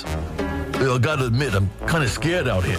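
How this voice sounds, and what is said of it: Put-on accent. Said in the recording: “Great accent.”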